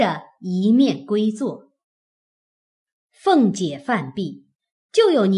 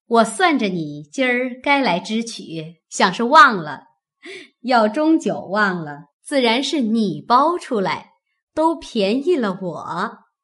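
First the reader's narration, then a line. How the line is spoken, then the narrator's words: Laughing. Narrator (Chinese): 凤姐笑道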